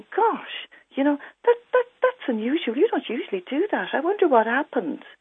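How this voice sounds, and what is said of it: Gentle, inquiring tone. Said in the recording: “note there my tone of voice... it's a tone of voice that's inquiring. It's a tone of voice also that's giving the message, this isn't usually you”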